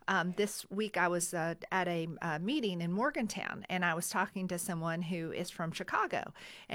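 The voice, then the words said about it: Slight Southern American twang. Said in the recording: “my, you know, little southern twang”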